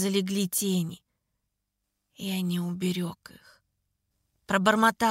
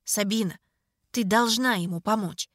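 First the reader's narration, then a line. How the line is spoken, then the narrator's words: Firm, uncompromising. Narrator (Russian): сказала твердым голосом, нетерпящим возражений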